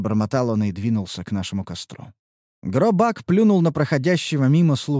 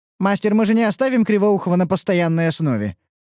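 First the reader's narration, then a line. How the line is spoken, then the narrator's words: Irritated question. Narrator (Russian): вопросила Красная раздраженно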